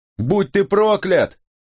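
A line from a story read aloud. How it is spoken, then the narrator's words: Yelled even louder. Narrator (Russian): завопил я еще громче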